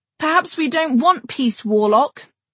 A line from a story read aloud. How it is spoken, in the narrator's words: someone shouted